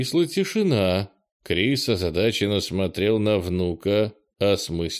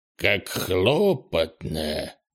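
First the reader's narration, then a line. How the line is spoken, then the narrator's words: Old man's grumble. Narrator (Russian): проворчал старый лун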